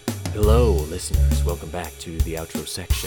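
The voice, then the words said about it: Smooth jazz radio voice. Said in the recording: “Let me put on my jazz voice.”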